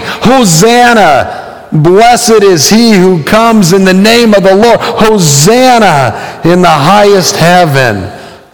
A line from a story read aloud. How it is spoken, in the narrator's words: the people shouting